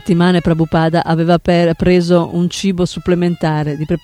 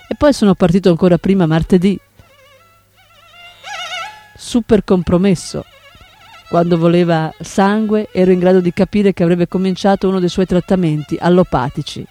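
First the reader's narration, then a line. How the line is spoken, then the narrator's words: Laughing. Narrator (Italian): Srila Prabhupada rise e disse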